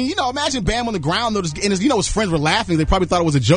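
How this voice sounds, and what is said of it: Usual voice. Nothing is said of it.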